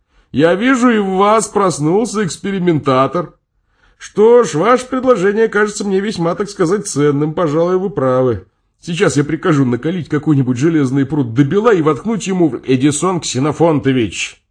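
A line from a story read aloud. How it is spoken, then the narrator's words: Shouted. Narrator (Russian): закричал я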